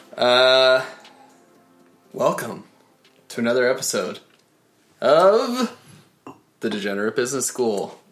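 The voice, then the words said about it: Announcer voice. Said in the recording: “I've been working on my announcer voice for the intros.”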